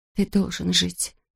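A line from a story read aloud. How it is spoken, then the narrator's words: Whisper. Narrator (Russian): прошептала Кэт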